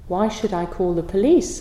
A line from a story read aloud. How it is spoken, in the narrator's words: answered the abbot calmly